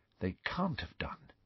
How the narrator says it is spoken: said Hermione in a low voice

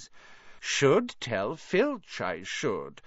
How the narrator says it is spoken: said Peeves in a saintly voice

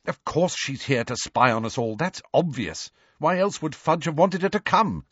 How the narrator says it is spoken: snapped Hermione

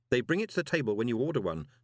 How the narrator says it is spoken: said Moist urgently

